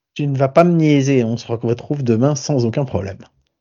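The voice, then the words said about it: Speaks with a marked accent. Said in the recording (French): “J'en peux déjà plus de cet accent.”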